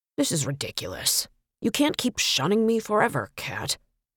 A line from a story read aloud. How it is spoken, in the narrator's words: the ghost muttered